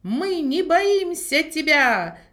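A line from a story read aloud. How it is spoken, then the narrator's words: Shout. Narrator (Russian): закричал он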